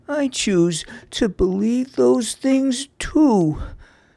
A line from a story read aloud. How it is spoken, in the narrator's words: she whimpered